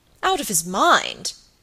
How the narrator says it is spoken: cried Sir Michael

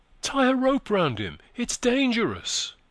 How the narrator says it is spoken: cried a soft and anxious voice somewhere above them

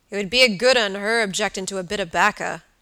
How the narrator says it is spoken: growled Mr

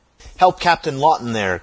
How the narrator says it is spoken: cried Mason

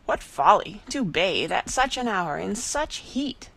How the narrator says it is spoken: exclaimed Mr

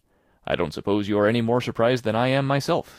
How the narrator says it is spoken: said Marilla

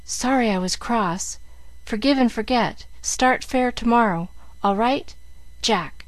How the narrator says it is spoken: in broken whispers

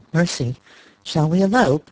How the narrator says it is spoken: She laughed

